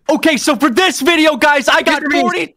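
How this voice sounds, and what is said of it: Imitates a popular YouTuber's voice. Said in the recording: “imitate a popular YouTuber ... Mr. Beast”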